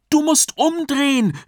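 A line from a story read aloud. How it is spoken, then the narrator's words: Shouted very loudly. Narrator (German): rief Jakob, diesmal richtig laut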